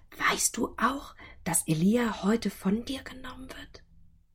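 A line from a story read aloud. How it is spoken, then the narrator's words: Whisper. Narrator (German): Elisa jedoch flüsterten sie zu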